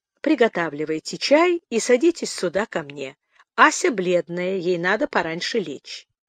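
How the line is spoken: Calm. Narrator (Russian): спокойно проговорила

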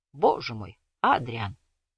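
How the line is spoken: Mumbling with full mouth. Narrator (Russian): с набитым ртом пробормотал

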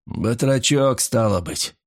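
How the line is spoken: Growled. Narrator (Russian): прорычал Ули

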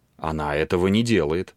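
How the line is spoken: Calm, proudly confident young man. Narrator (Russian): спокойно ответил юноша с гордой уверенностью

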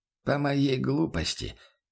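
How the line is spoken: Quiet reply. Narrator (Russian): тихо отозвался Бруно

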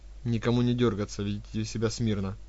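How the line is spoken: Plain. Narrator (Russian): сказала она

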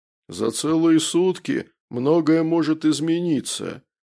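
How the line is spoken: Grumbled. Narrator (Russian): проворчал барон

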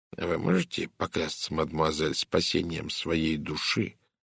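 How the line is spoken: Quiet question. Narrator (Russian): тихо спросил Пуаро

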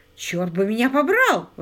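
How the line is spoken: Exclaimed. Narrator (Russian): воскликнул Паркер

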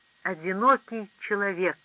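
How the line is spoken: Plain. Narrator (Russian): сказал он

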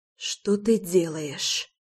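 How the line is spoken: Hoarse rasp. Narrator (Russian): просипела я

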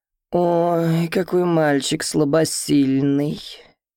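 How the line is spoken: Slightly nasal woman. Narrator (Russian): немного гнусавым голосом говорит одна из соседок Саши

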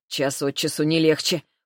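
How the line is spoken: Snort. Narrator (Russian): фыркнул Забелин

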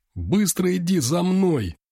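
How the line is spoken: Shout. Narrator (Russian): закричал я

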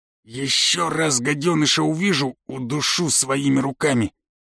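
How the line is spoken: Hissed. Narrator (Russian): прошипел

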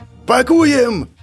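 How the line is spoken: Orderly yelling. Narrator (Russian): заорал санитар

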